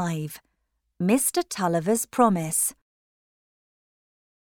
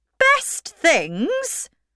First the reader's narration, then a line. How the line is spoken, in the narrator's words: cried Aunt Glegg